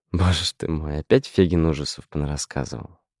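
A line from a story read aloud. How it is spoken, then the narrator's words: Sighing. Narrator (Russian): Вздохнула Белла Абрамовна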